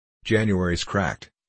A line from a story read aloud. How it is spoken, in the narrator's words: he said